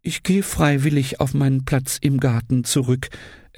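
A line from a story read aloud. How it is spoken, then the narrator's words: Trembling voice. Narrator (German): erklärte mit zitternder Stimme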